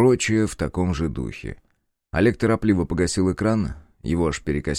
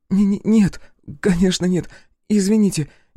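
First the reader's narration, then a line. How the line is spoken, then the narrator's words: Frightened girl babbling. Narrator (Russian): испуганно залопотала девушка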